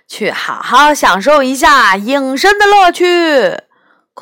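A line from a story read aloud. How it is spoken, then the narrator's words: Shouting. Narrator (Chinese): 杨永乐朝着空气喊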